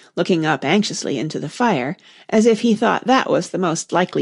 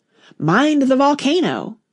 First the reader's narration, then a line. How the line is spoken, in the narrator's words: she called out to the White King